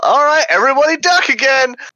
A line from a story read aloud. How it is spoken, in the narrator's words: yell